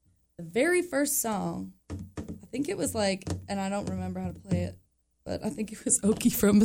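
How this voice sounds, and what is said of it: Usual voice. Nothing is said of it.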